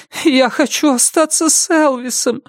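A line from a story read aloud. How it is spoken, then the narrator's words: Whimpering. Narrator (Russian): захныкала она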